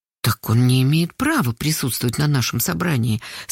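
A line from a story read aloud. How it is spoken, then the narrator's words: Very quiet. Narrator (Russian): совсем тихо сказала Карпушкина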